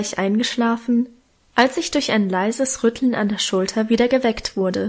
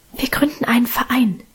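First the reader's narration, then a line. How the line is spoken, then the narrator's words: Whisper. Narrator (German): flüsterte Minchen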